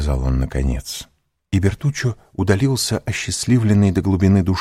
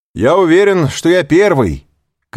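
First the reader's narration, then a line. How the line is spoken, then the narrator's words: Shouting. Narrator (Russian): крикнул ему Морель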